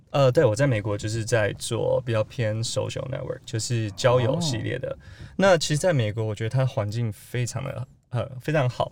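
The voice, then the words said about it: Accent of someone raised abroad. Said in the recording (Chinese): “口音听起来就就是国外长大的口音啊”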